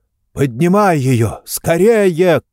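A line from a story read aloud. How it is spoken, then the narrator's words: Shouted. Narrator (Russian): крикнул он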